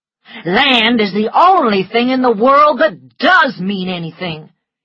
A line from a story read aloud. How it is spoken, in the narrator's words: he cried